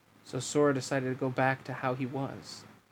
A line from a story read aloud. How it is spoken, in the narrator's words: Riku murmured